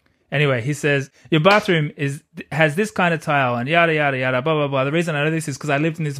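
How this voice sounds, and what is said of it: Usual voice. Nothing is said of it.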